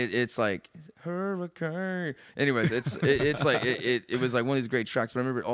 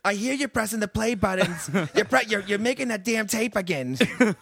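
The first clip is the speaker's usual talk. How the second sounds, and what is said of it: Put-on New Jersey accent. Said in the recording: “She's not like New Jersey accent, but that's just in my head how she talks. She just talks like she's a ... from ... New ... Jersey.”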